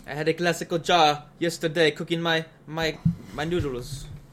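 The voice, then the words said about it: Put-on Italian accent. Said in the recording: “I don't know what accent that was. I guess uh, Italian.”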